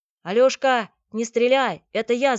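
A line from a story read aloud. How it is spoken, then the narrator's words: Shouting. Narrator (Russian): закричал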